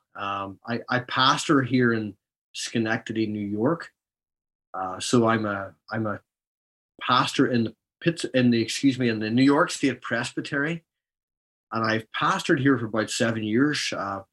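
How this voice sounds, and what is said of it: Non-local accent. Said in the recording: “As you can probably tell from my accent, I'm not a local.”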